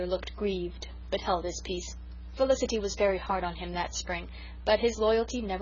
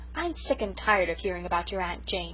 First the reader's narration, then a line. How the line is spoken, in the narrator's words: said Felicity crossly